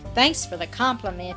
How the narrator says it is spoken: he answered with a bitter laugh

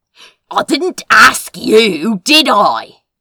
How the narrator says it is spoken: He growled

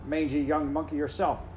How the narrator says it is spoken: said he

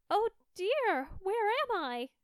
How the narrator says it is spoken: cried she

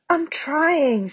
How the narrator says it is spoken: said Neville miserably

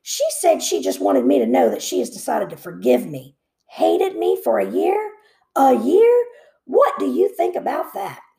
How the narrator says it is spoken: grumbled

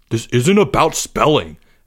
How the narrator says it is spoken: Albert snapped

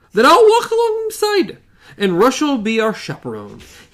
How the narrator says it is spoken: he said cheerfully

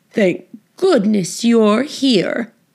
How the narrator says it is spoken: cried the cook

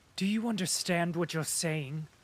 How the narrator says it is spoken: he said in a trembling voice

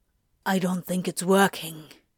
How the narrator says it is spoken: Crowley whispered

